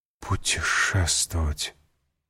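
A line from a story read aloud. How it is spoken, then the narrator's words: Whispered. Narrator (Russian): прошептала госпожа Данглар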